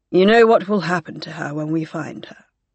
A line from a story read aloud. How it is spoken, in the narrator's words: he said quite gently